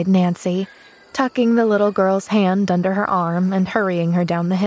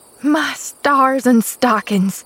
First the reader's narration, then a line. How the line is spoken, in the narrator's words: gasped Nancy